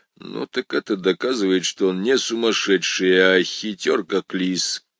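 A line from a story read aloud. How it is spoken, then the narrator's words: Undertone. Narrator (Russian): Перри Мейсон вполголоса сказал Пембертону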